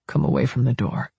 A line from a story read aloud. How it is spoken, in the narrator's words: Hicks murmured into my hair